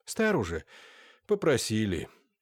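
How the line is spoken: Very sad old man, sighing. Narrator (Russian): еще более грустно ответил старик и вздохнул

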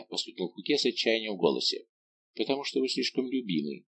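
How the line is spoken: Young woman, quiet. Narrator (Russian): тихо сказала молодая женщина

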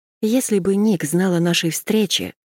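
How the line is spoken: Sighing. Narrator (Russian): вздохнула я

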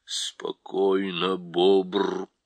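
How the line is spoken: Spoken with low growl. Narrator (Russian): промолвил Аслан и тихо зарычал

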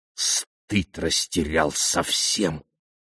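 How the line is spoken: Hissing. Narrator (Russian): прошипел он

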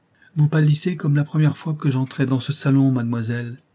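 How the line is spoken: Plain. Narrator (French): dit le comte

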